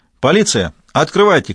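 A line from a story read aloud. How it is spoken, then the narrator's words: Shouted. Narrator (Russian): крикнула она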